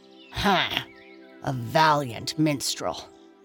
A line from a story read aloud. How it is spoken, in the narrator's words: sneered